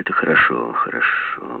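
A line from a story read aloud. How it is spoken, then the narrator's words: Distracted muttering. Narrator (Russian): бормотал Жеглов, явно думая о чем-то другом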